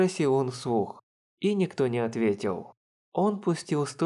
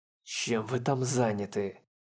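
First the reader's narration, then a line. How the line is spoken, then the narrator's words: Angry, through clenched teeth. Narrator (Russian): процедил, разозленный беспощадным ожиданием Дел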